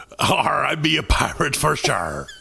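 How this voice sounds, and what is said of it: Pirate accent. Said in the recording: “from your accent, I gotta ask you off the bat, are you a pirate?”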